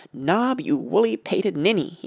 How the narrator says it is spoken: he cried

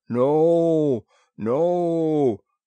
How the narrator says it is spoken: they boomed in thunderous humility

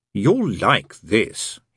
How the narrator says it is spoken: he said

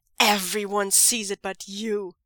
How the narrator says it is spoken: Zhang Cheng snarls

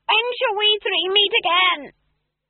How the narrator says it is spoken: an eldritch voice shrieked

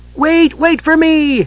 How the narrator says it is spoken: Tass yelled

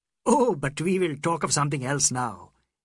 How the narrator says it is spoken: exclaimed

